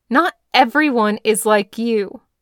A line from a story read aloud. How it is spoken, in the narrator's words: Dazai snapped